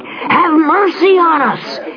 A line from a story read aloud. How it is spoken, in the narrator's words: they cried